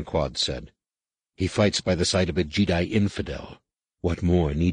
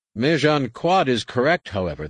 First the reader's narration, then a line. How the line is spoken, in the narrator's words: the commander said dryly